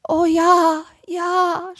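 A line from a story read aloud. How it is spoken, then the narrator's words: Groaning. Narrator (German): stöhnte Seppel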